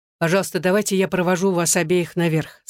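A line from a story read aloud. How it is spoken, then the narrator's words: Plain. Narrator (Russian): сказал он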